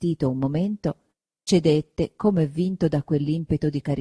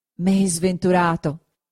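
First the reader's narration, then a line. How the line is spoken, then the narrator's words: Exclaimed. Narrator (Italian): esclamò il Signore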